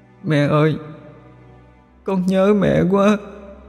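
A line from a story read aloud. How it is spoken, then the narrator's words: Tearful sobbing plea. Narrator (Vietnamese): khóc lóc tỉ tê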